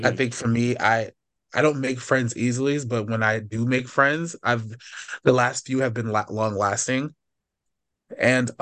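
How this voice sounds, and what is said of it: Deep, sick-sounding voice. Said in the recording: “I'm a little bit sick ... my deep voice”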